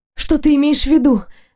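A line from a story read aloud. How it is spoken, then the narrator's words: Choked, breathless. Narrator (Russian): сдавленно выдохнула я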